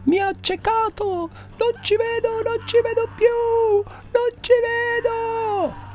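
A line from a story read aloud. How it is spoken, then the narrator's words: Screaming in pain. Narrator (Italian): Urla reggendosi l'occhio con le mani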